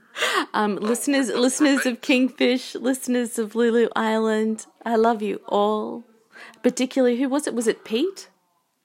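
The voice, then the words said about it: Australian accent, female voice. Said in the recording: “gorgeous chick with the sexy Australian accent”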